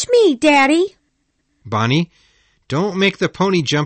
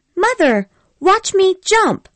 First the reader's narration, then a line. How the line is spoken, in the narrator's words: cried Bonnie